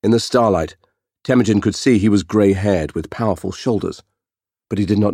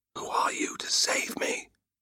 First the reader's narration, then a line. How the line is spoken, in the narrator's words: whispered